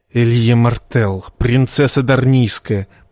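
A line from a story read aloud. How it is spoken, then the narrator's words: Serpent's hiss. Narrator (Russian): прошипел красный змей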